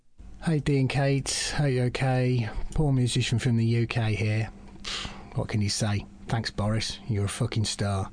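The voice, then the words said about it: Southern English, Essex-like accent. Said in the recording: “Down south a bit, down south... like maybe a bit Essexy. I'm not sure.”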